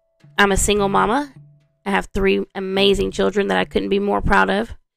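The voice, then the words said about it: Texas-sounding Southern US accent. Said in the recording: “I am from Southwest Louisiana ... which is probably why I sound like I'm from Texas and don't have that true Cajun accent”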